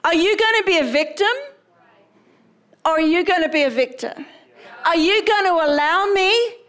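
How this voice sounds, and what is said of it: Australian accent. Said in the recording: “That sounded so Australian.”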